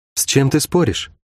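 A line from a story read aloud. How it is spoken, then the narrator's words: Quiet question. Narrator (Russian): тихо поинтересовалась у него Шерон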